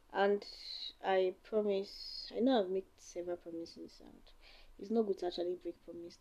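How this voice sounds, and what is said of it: Tired, weary voice. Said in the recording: “Can you hear the way my voice is? I'm so tired.”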